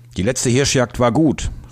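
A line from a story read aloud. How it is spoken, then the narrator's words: Calling out. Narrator (German): rief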